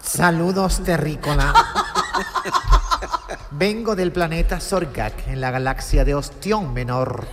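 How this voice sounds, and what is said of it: Valladolid Spanish accent, alien character. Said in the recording (Spanish): “encima hablando con acento de Valladolid”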